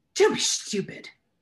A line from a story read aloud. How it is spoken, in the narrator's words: snapped Aunt Petunia